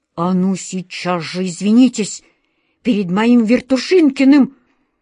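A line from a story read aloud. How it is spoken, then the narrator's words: Menacing wizard's hiss. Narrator (Russian): угрожающе прошипел волшебник Алеша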